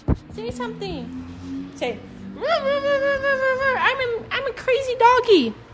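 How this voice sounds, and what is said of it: Baby voice. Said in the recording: “talking in baby voice to my dog”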